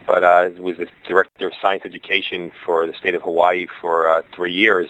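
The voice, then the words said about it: Brooklyn accent. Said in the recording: “I hear my Brooklyn accent”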